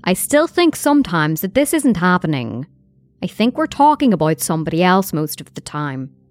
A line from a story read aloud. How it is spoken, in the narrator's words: Donna solemnly commented